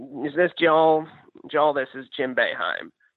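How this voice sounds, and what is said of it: Imitates another person's voice, poorly. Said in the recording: “my horrible impression”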